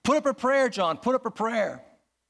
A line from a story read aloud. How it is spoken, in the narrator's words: terrified, the one shouted to the other